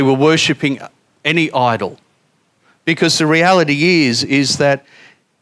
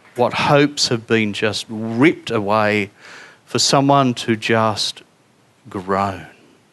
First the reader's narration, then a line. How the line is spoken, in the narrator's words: They groaned